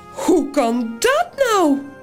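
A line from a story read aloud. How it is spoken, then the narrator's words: Piglet, high voice. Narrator (Dutch): zegt het varkentje met de hoge stem van Toos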